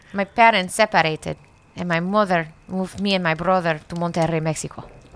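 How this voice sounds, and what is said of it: Put-on Hispanic accent. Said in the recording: “read it in a Hispanic accent”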